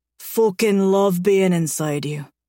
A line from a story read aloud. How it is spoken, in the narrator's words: he growls in my ear